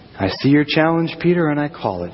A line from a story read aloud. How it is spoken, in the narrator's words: Jesus says